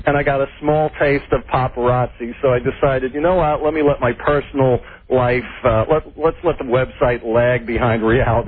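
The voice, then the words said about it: Slight New York accent. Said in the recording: “I always detect like a note of an accent ... New York, yeah, a little New York accent there.”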